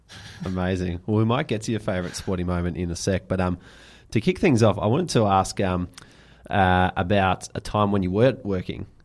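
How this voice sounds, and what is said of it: Strong Australian accent. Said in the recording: “how strong our accent is ... I like the Aussie accent.”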